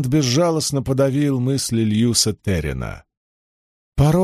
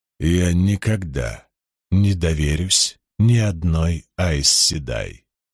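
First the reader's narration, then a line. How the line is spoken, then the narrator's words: Hoarse, quiet. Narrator (Russian): хрипло и тихо произнес Ранд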